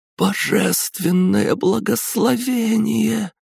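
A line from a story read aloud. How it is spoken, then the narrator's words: Hoarse rasp. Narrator (Russian): прохрипела она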